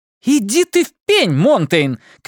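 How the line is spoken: Shouted. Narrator (Russian): крикнула она

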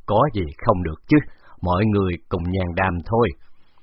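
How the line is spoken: Laughing. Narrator (Vietnamese): Bái Tử Đình bật cười

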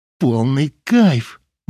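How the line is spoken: Automatic exclamation. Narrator (Russian): машинально воскликнула она

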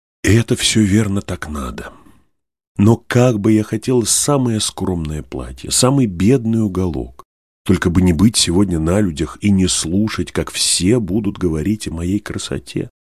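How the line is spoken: Sighing. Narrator (Russian): вздохнула Наль

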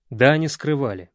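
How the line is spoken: Stern reply. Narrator (Russian): строго ответил космический рейнджер

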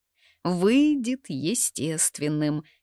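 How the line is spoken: Giggling. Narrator (Russian): хихикую я

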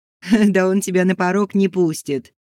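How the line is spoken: Laughing. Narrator (Russian): засмеялась Маринка

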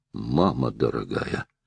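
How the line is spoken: Breathed out exclamation. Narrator (Russian): выдохнул, наконец, Стоун

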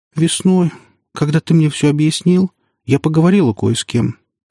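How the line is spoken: Tearful explanation. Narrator (Russian): сквозь слезы стала объяснять она

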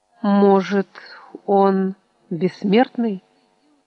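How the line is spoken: Uncertain guess. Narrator (Russian): неуверенно предположил Дэвид

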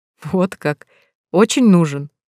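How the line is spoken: Laughing, muffled. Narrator (Russian): засмеялся Дамир, уткнувшись носом в растрёпанные волосы

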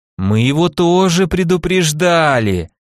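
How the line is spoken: Drawled in chorus. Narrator (Russian): протянули ребята

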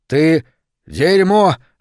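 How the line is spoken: Yelling. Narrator (Russian): орал Гаррисон

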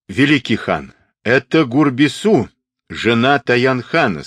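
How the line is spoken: Plain. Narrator (Russian): сказал Татунг-а

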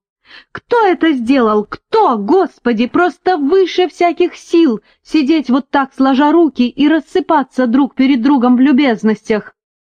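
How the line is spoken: Shrill hysterical shout. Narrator (Russian): Тонким пронзительным дисконтом Филипп истерично выкрикнул

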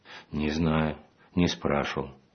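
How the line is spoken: Quiet reply. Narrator (Russian): ответила так же тихо

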